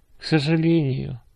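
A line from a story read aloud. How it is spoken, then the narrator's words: Sighing grandfather. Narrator (Russian): вздохнул дедушка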